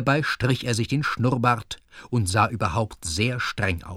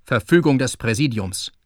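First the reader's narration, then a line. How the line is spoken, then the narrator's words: Gruff curt remark. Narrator (German): meinte Kasimir barsch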